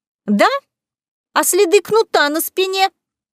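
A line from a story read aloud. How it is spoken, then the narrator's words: Shrill woman's voice. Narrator (Russian): визгливо произнесла та, которую назвали Беатрис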